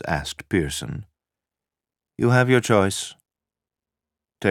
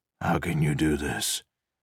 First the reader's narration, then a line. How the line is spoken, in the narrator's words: Pearson said weakly